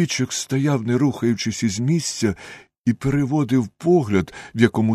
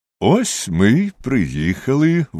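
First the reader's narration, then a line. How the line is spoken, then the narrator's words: Cheerful. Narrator (Ukrainian): весело мовив Холмс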